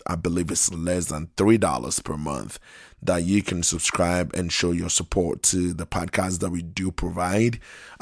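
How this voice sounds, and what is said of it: Hoarse, fading voice. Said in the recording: “apologize for my voice. I'm losing my voice a little bit here.”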